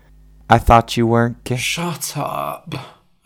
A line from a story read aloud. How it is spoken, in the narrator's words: I mumbled